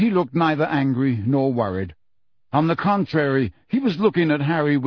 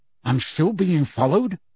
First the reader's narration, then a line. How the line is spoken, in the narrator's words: asked Harry angrily